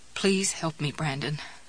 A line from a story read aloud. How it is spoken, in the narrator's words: I said